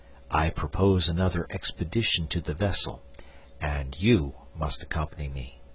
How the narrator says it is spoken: I added in a low tone, lest I should distress my wife

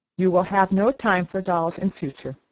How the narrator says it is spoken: she said

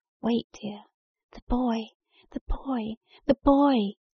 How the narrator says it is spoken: pleaded

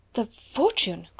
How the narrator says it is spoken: cried Miss Minchin, and she really lost colour as she uttered the exclamation

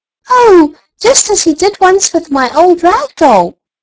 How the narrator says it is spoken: cried Elsie

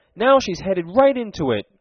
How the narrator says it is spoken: cried Tom in exultation

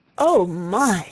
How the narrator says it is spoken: she gasped, when she had got her breath

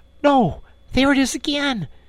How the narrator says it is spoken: he cried, alert once more

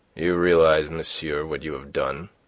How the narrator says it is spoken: said he coldly

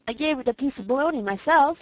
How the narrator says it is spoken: she said

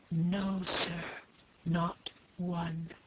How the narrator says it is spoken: whispered the waiter, putting his mouth nearly close to the warden's ear

